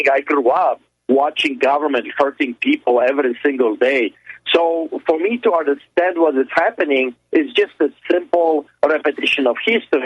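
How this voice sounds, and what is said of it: Eastern European accent. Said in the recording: “listen to my accent, I grew up in hell behind the Iron Curtain”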